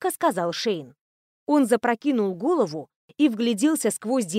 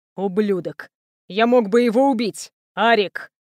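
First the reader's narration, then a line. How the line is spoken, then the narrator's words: Growled. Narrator (Russian): прорычал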